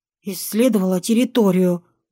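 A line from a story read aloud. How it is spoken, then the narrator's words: Muttered. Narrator (Russian): буркнула я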